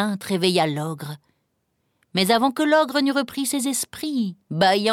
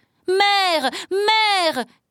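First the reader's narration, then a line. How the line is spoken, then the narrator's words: Shouting. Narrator (French): criait Jacques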